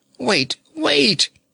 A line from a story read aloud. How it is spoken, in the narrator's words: he begged earnestly